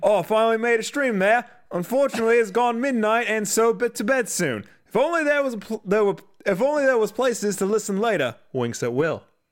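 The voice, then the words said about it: Put-on Australian accent. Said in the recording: “Can you read all that in a British accent? ... I got to make sure I don't go into Australian. ... No, that's Australian. ... Just do Australian.”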